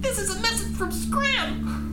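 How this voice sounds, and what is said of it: Squeaky mouse character voice. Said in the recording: “Do the mouse voice. ... The mouse will speak as a mouse”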